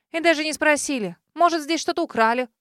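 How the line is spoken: Scoffing snort. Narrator (Russian): Хмыкнула Кейт

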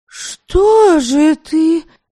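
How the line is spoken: Near-indignant exclamation. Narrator (Russian): воскликнула она почти с негодованием

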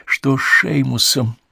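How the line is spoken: Trembling voice, asked. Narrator (Russian): спросила она дрожащим голосом

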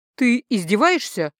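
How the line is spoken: Indignant. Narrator (Russian): возмущенно сказала я

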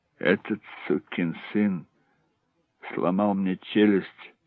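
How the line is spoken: Muffled mumble. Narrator (Russian): глухо пробормотал Хеллоран

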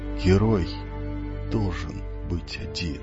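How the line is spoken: Barely audible whisper. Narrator (Russian): чуть слышно прошептал он

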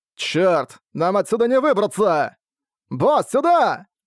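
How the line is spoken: Shouting. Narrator (Russian): прокричал Такасу

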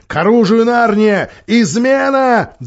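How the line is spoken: Shouting. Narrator (Russian): закричал Питер

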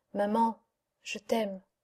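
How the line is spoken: Murmured. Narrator (French): Il murmura

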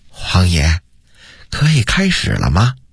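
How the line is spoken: Soft question. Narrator (Chinese): 他 轻声问道

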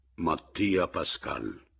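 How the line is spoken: Gloomy, syllable by syllable. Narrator (Italian): con voce cupa, quasi sillabando, dissi

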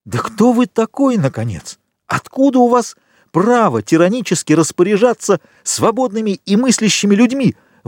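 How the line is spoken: Exclaimed. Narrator (Russian): воскликнул Максимилиан

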